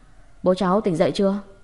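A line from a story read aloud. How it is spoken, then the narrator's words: Loud, hurried question. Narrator (Vietnamese): La Phi vừa vội bước nhanh vào sân, vừa lớn tiếng hỏi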